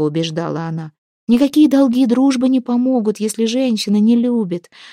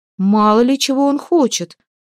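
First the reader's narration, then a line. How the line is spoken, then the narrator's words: Exasperated exclamation. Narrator (Russian): устав от возражений, воскликнула Хлейна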